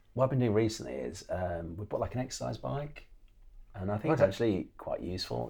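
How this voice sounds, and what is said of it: Hoarse, fading voice. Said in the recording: “I'm losing my voice a bit.”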